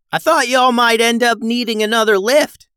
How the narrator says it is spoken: hollered

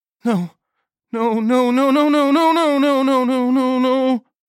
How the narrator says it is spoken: Nagel moaned

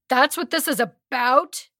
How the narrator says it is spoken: He yells at the glass window

